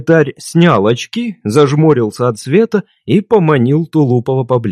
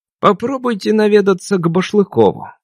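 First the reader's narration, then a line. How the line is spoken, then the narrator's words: Quiet. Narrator (Russian): тихо сказал он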